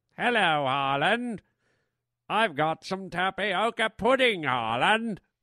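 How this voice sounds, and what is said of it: Generic English accent. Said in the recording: “that sounded just like any old English guy ... a good British accent”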